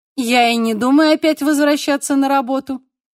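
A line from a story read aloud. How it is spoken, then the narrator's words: Snide. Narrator (Russian): ехидно добавила Бабет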